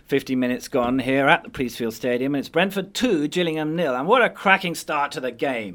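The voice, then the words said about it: Imitated radio football report delivery. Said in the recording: “I'll just do a little imitation of a report.”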